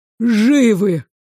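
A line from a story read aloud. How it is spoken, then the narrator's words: Breathless young man. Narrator (Russian): Выдохнул дежурный паренек и доложил, глотая от сбитого дыхания слова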